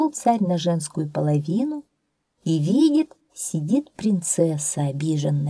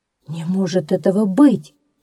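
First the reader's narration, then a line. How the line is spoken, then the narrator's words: Exclaiming. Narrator (Russian): воскликнул царь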